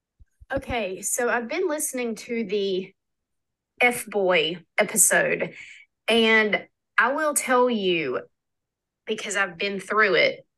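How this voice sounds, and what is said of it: Slight regional accent. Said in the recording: “I think I heard that there's a little accent in there too”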